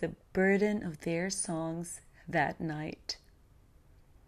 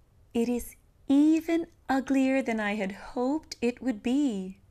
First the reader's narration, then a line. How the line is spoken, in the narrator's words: cried Linda Branca in delight